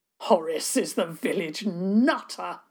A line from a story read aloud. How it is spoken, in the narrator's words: boomed